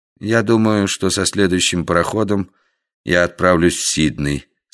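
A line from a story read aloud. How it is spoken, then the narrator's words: Calm, unboastful. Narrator (Russian): сказал он спокойно и без обычного хвастовства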